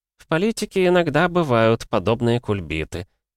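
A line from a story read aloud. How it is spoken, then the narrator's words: Sigh. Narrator (Russian): вздохнул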